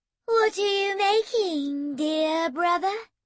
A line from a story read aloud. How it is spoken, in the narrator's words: she said in a sweet, cooing voice